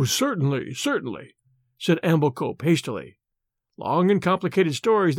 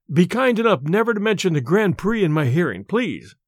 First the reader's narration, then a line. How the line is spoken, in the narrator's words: said Treddleford desperately